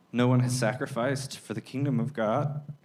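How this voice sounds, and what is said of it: Teary, emotional voice. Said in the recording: “getting teary”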